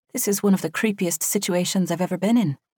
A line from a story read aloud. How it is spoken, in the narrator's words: Drysey muttered